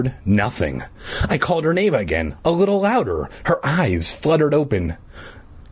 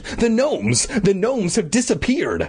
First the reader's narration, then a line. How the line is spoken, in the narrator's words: I exclaimed